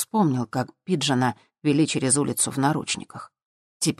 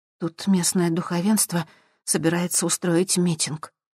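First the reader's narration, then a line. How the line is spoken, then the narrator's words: Tired whisper. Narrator (Russian): устало прошептала Сьюзан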